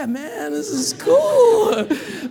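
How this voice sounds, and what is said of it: Impression of a deadhead hippie. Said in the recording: “I could do a pretty good impression, huh?”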